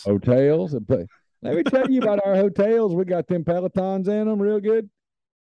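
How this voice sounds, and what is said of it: Exaggerated Southern US accent. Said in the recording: “my Southern accent, but sometimes it pops up”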